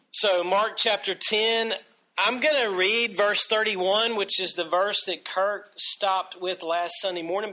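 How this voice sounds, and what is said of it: Congested, sinus-affected voice. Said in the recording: “Pardon my voice. ... sinus-wise, and I'm still feeling the effects as far as my voice goes”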